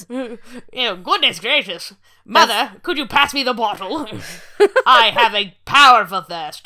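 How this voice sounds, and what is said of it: Winston Churchill impression, 1930s voice. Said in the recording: “your weird 1935 Winston Churchill accent ... my Churchill impression”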